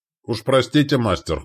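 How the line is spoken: Grunting hmph. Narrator (Russian): хмыкнул Стоян

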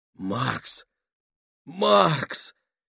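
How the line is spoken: Amazed exhale. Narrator (Russian): изумленно выдохнул Гослинг

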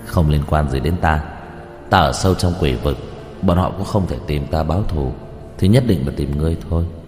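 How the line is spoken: Cold scoffing. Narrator (Vietnamese): Đạo Phong cười nhạt

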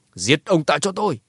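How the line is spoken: Loud commanding shout. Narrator (Vietnamese): Thành chủ Hoài Thành chỉ tay về phía lão cửu lớn giọng quát

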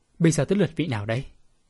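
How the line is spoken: Cold laugh, sinister question. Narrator (Vietnamese): Bạch Tiếu Hồng cười nhạt một cái âm trầm hỏi

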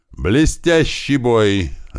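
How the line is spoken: Loud amplified yell. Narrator (Russian): заорал микрофон

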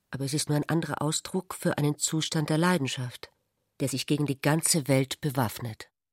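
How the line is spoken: Embarrassed, quiet, joking. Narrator (German): sagte Ulrich verlegen und fügte leise mit einem zuckend scherzenden Lächeln hinzu

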